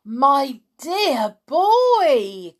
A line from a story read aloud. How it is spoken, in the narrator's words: cried Mr